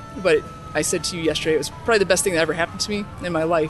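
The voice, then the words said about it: Slightly emotional voice. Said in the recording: “I'm getting a little emotional right now”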